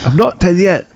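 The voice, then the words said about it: Attempted British accent. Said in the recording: “the first time I've done a British accent. What, my attempt at a British accent.”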